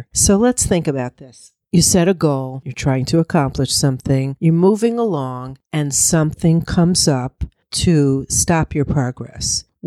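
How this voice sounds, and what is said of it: Husky, slightly deeper voice. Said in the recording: “I'm fighting a little cold today, so I'm a little bit huskier than usual ... My voice is just a little bit deeper today”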